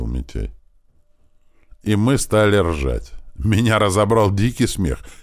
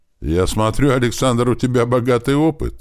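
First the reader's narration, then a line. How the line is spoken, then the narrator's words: Formal tone. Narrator (Russian): официальным тоном произнес Грач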